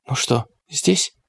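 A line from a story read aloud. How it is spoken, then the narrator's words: Whisper. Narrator (Russian): прошептала Клэр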